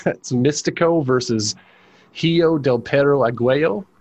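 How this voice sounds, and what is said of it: Mexican Spanish pronunciation of names. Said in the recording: “my Mexican accent or Mexican pronunciation is going to be a suspect on this one ... How bad did I butcher that name? ... actually not bad at all”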